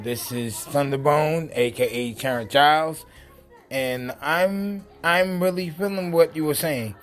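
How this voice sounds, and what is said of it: Unwell, rough-sounding voice. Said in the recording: “excuse my voice right now because I'm uh, under the weather”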